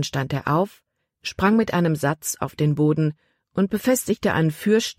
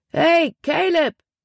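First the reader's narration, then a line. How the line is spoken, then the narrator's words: Calling out. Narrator (German): rief er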